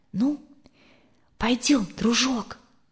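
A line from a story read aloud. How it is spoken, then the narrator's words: Quiet. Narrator (Russian): Екатерина тихо сказала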